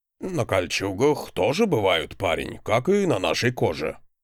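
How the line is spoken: Older man's grunt. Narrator (Russian): хмыкнул на это продавец с пышной бородой, в которой уже хватало седых нитей

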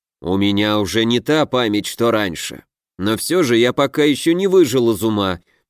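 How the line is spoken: Grumble. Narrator (Russian): проворчал Вяземский

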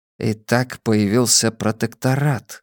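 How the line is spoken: Quietly remarked. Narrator (Russian): негромко заметил Абеттик

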